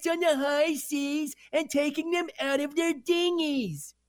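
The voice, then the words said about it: Silly cartoonish character voice. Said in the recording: “doing the Dongster voice ... that voice”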